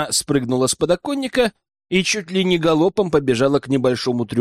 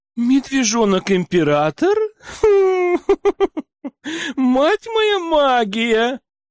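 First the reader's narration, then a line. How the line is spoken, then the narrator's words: Laughing loudly. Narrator (Russian): расхохоталась Сибилла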